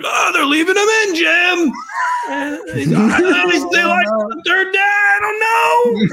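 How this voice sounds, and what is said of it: Imitates another person's voice. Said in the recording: “That was a good Romo impression ... That's my favorite impression I've ever seen on this show.”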